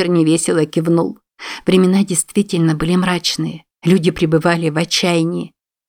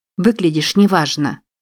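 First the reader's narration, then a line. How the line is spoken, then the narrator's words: Sympathetic yet irritated. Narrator (Russian): сочувственно и в то же время раздраженно сказала она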